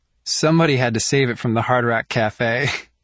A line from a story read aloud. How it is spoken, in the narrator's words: Mia says with a laugh